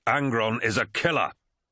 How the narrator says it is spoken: snapped Horus

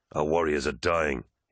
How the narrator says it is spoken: said bitterly

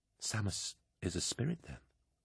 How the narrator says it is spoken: Keeler whispered, feeling unpleasantly light-headed

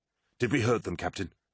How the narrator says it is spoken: asked Solothan

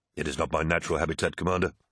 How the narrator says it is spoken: replied Tarvitz

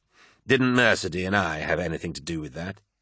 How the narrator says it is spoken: sneered Carcassy

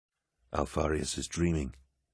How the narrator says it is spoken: he muttered

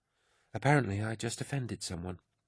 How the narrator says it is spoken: Ollerton said quickly

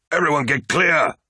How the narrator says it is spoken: bellowed Loken

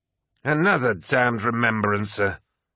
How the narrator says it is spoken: sneered Abaddon

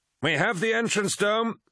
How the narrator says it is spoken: shouted Eidolon

